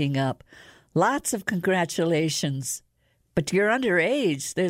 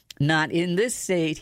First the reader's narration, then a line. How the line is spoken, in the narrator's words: he chuckled